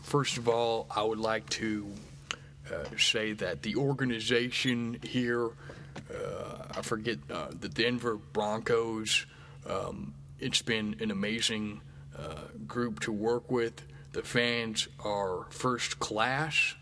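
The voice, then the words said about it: Imitates another person's voice, scripted speech. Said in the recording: “I do a Peyton Manning impression. This is my impression of Peyton Manning when he won his last Super Bowl. And it was just such a scripted speech”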